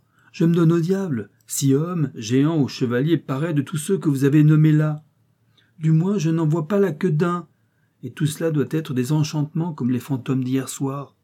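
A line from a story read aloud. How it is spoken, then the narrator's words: Exclaimed. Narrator (French): s'écria-t-il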